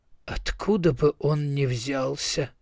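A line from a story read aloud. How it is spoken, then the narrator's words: Mutter. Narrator (Russian): пробормотал Ардротти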